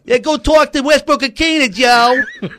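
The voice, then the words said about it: Exaggerated New Jersey accent impression. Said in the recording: “Kuharsky impression ... when I do Kuharsky, I kind of jerky boys it up a little bit. He's from Jersey ... he doesn't really talk with that accent”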